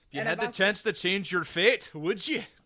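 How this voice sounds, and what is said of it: Badly done put-on accent. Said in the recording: “It's a terrible accent.”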